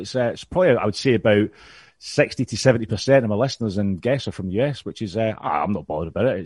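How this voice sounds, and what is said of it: Scottish accent. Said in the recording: “You sound a lot more educated here to us with your accent ... Coming from Scotland ... Oh, that accent.”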